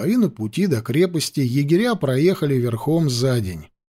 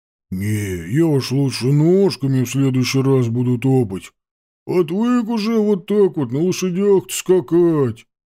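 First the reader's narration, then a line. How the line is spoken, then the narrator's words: Grumbling, complaining. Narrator (Russian): ворчал Ванька Кудряш, жалуясь Тимофею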